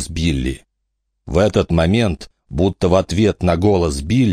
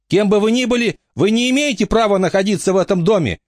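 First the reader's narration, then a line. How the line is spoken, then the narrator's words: Shouting. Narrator (Russian): крикнул Билли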